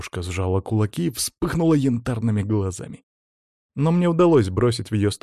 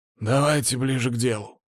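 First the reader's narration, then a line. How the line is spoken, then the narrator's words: Grumbling. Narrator (Russian): буркнул Щербатый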